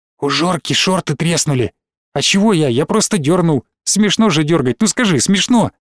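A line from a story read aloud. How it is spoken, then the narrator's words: Rapid whisper. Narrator (Russian): Белобрысый быстро зашептал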